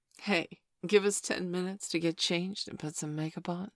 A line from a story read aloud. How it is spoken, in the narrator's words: she replied